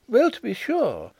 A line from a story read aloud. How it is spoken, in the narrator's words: exclaimed Miss Chubb